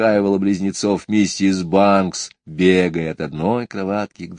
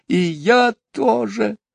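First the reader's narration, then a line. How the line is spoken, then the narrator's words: Muffled sobbing. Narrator (Russian): рыдала Барбара, уткнувшись в подушку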